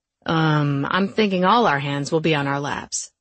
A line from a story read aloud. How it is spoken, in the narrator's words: Luke said